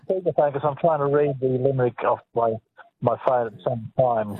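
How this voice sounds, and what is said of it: Muffled voice. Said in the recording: “you sound very muffled”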